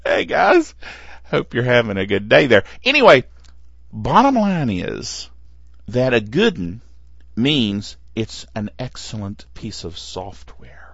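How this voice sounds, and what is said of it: Southern American accent. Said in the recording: “I'm from the South ... me and my accent”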